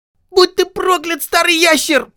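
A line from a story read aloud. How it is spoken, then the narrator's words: Loud squeak. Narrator (Russian): пропищал он громко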